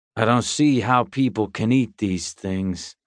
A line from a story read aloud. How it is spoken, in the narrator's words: Bowers grumbled to himself